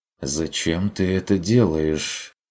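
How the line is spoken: Quiet question. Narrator (Russian): тихо спросил Бруно

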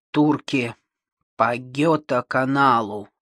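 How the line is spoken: Grumbling. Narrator (Russian): проворчал он

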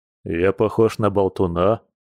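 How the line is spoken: Bear's snort. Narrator (Russian): хмыкнул медведь

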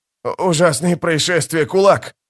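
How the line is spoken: Trembling voice. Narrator (Russian): произнес дрожащим голосом

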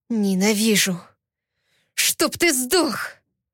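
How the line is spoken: Hoarse rasp. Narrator (Russian): Прохрипела

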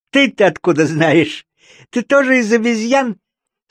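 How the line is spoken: Question, then laughter. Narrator (Russian): спросило животное и засмеялось

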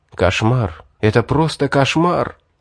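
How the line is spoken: Shocked whisper. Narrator (Russian): прошептал я, потрясенный словами жреца

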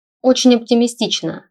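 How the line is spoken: Wry snort. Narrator (Russian): хмыкнул Стелларий

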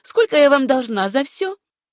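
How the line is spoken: Laughing reply. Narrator (Russian): Пекарь расхохотался и ответил

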